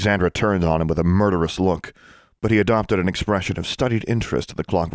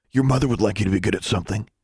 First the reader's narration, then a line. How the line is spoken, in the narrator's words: Larry whispered